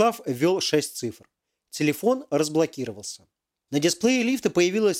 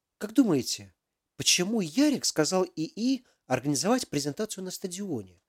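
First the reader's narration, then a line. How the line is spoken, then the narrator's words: Thoughtful question. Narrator (Russian): задумчиво спросила Алиса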